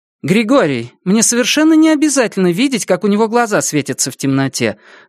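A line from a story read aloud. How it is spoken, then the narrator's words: Irritated. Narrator (Russian): раздраженно сказала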